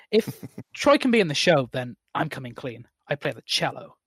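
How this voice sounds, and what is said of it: Bad put-on American accent. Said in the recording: “awful American accent”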